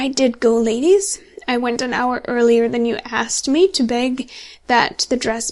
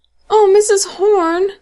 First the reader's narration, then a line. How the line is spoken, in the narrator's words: cried Lucy